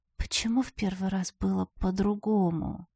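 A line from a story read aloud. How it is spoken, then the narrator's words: Mumbled. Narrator (Russian): Пробормотала я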